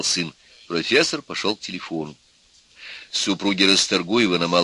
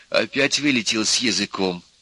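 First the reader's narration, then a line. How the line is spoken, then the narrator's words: Quiet, angry. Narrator (Russian): сердито, негромко заговорила Нюра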